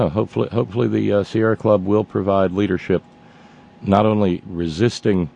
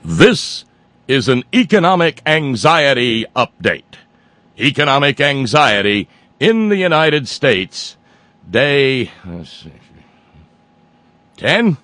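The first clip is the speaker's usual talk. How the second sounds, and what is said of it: Mock newscaster voice. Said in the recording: “Let me get my newscaster voice.”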